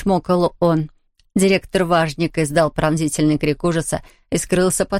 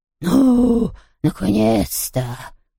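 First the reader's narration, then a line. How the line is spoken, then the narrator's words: Groaning. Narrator (Russian): простонал Хуго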